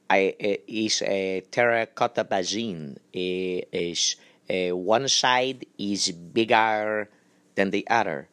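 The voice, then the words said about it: Put-on Greek accent. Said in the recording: “Greek, this is the closest Greek, Greek kind of accent.”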